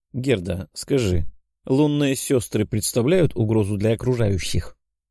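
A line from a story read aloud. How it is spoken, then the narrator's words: Deliberately calm question. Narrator (Russian): спросил нарочито спокойным голосом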